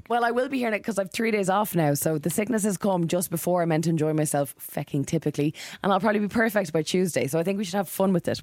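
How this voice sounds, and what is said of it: Raspy, hoarse voice from illness. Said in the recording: “I can't speak ... save your voice ... my rare real raspy sexy”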